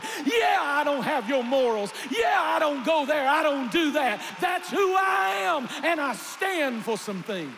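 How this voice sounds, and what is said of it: Screaming, very loud preaching. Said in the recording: “Why am I screaming?”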